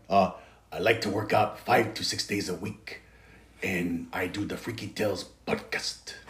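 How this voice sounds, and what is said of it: Imitates another person's voice. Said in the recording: “This is my impersonation, Tony.”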